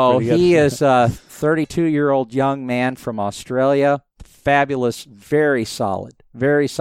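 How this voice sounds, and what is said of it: Usual voice. Nothing is said of it.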